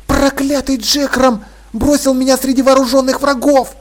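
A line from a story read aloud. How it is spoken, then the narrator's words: Hissing. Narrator (Russian): зашипела Полли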